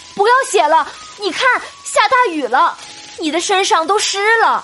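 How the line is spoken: Calling out. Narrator (Chinese): 宝玉禁不住开口叫道

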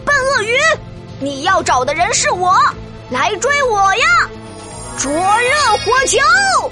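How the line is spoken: Loud taunting. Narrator (Chinese): 莫西西大声挑衅道

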